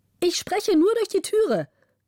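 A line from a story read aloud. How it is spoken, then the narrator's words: Bright voice calling. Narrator (German): rief die helle Stimme der Gräfin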